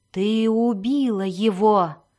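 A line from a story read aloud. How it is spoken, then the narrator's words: Loud whisper. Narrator (Russian): громко прошептал он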